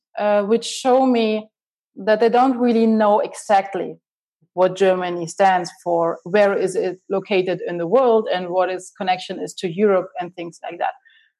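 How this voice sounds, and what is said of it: German accent. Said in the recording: “my accent, it's definitely German, you can hear that”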